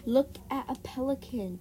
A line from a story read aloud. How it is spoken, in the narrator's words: Josh cried